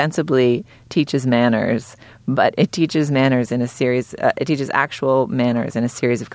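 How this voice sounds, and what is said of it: Usual voice. Nothing is said of it.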